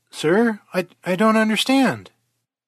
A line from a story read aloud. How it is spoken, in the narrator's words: stammered Surge